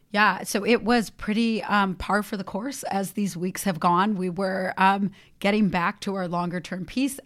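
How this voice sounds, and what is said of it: Hoarse voice from laryngitis. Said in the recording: “you'll have to forgive me this week because I have a little bit of laryngitis.”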